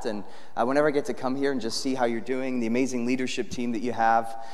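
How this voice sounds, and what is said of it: American accent. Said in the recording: “You would never guess it based on my accent, but I was actually born in the UK ... you have an American accent”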